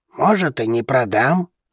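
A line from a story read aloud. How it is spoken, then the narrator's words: Grumbling old man. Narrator (Russian): проворчал старик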